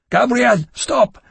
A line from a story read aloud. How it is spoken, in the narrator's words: I shouted